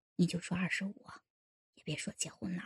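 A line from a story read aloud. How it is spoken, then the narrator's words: Quiet hushed voice. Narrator (Chinese): 老牛头小声说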